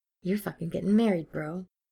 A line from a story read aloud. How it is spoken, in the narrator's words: he whispered to his wide-eyed reflection